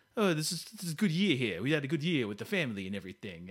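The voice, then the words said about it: Imitated Tony Soprano-style voice. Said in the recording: “I was going to try to do a Tony Soprano accent, James Gandolfini... I guess I'm doing it anyway.”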